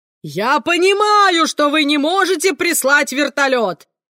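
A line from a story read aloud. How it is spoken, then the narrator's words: Yelling. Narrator (Russian): орал Леспинас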